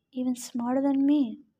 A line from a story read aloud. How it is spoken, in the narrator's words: Daedalus mumbled, too softly for the boy to hear